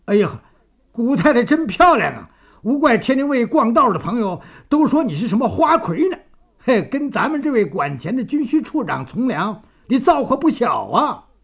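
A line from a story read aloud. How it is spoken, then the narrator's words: Smiling. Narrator (Chinese): 张作霖笑眯眯地说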